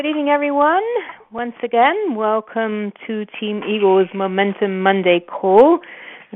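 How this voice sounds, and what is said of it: English accent. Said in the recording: “We are originally from England. That's no surprise with this accent of mine.”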